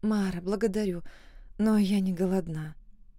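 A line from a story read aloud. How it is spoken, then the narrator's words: Trembling voice. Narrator (Russian): произнесла я дрожащим голосом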